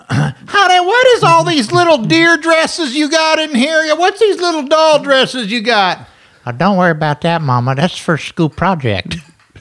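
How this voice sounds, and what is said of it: Put-on Texas accent. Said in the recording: “I just like doing all these Texas accents.”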